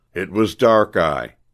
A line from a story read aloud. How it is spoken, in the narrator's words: said Jasper in a stern voice